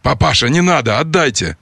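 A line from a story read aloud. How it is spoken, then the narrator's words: Hoarse wheezing. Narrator (Russian): хрипела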